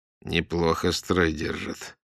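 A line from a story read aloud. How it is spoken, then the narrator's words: Surprised mutter. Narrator (Russian): удивленно пробормотал Сокольников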